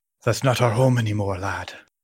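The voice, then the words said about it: Scottish brogue, Ed Asner's Hudson. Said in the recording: “Ed Asner's Scottish brogue is pretty great”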